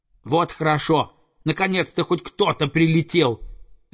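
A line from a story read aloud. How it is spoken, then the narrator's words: Young eagle shouting. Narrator (Russian): закричал орленок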